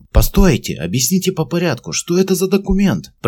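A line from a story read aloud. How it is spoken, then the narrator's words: Shouting. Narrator (Russian): закричал Уильям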